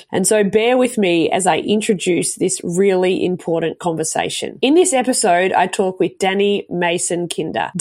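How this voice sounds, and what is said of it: Sick-sounding voice. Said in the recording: “As you can tell by my voice, I'm at the tail end of the flu”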